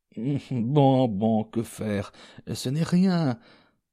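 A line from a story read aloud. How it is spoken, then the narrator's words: Mumbled. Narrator (French): marmonna Anastasia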